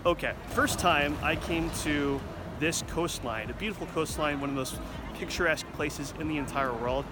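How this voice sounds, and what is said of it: American accent. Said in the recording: “my American accent gets in the way”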